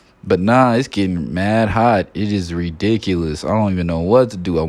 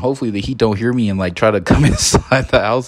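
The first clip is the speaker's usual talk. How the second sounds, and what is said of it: Whispering. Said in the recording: “I'm whispering.”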